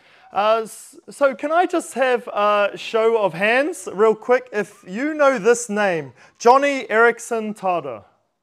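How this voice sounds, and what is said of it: New Zealand accent. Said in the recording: “my New Zealand dialect”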